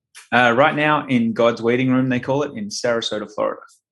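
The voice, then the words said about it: Australian accent. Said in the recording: “I noticed the accent there. ... Originally from Brisbane, Queensland. So down under.”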